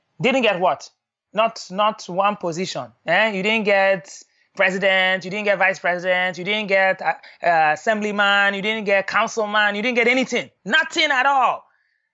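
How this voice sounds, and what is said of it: Put-on African accent, harsh tone. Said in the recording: “stereotypically African ... my dad is very harsh in the way that he speaks ... I'm going to do the accent”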